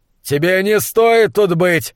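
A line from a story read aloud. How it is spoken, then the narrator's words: Yelling. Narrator (Russian): завопил он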